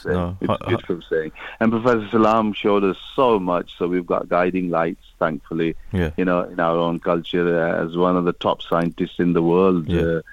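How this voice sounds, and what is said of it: Bradford English accent. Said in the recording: “Is that a Bradford accent that I sense right there? ... It is a Bradford accent.”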